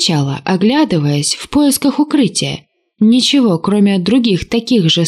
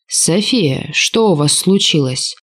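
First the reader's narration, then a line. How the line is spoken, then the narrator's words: Velvety voice over comms. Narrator (Russian): Бархатистый голос Тюссана, возникший в канале связи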